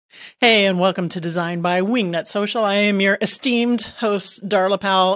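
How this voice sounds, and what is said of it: Over-the-top sports announcer voice. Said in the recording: “Had that announcer voice... sports announcers... they sound like they're throwing up when they talk”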